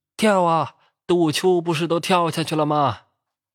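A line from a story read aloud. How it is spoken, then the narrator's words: Shouting. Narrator (Chinese): 老五和我还冲他喊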